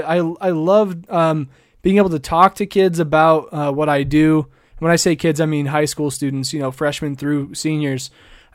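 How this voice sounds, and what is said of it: Rough, worn-out voice. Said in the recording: “my voice is all messed up ... I am tired”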